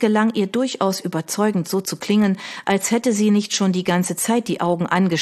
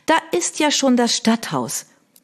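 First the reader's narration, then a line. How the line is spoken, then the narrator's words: Grateful exclamation. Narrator (German): rief sie dankbar aus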